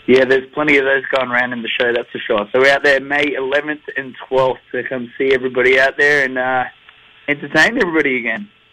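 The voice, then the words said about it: Noticeable foreign accent. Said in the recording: “that beautiful accent... that wonderful accent”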